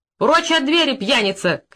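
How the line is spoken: Shouted. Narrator (Russian): крикнула Марья Ивановна

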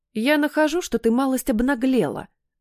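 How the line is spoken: Snapping retort. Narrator (Russian): огрызнулась я

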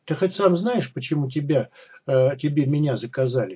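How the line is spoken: Plain question, girl. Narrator (Russian): спросила девушка

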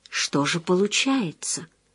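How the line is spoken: Mouthed whisper. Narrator (Russian): прошептал одними губами

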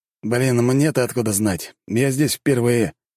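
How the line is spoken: Grumbling. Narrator (Russian): проворчал брат

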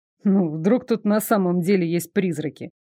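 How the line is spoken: Snorting. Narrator (Russian): Дарек хмыкнул

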